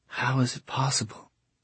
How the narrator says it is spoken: she whispered

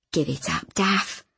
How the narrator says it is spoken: when I found her sobbing on the bench with her head on the closed piano lid, I had whispered

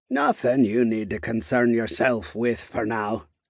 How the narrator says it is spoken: he said with a grunt

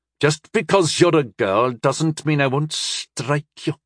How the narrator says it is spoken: Gareth said bitterly

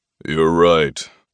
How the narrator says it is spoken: My father's deep, familiar voice rumbled through me like thunder

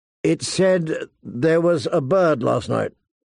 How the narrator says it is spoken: he asked hesitantly

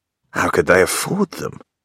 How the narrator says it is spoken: John sighs

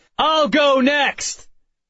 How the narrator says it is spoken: shouted

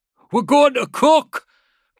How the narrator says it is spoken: Cota screamed from the driver's seat

